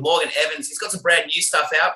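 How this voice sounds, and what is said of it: Australian accent. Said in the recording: “It's good to hear your accent.”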